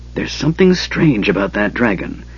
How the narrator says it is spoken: Tass whispered

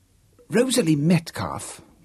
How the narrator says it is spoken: whispered James fiercely

